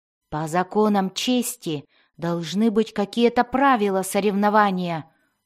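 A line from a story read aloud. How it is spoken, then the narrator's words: Growling. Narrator (Russian): зарычал Дзирт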